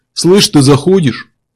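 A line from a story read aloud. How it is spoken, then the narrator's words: Deep bass voice. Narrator (Russian): пробасил голос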